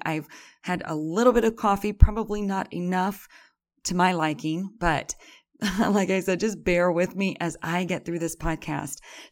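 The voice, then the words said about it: Raspy early-morning voice. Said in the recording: “my voice is raspy.”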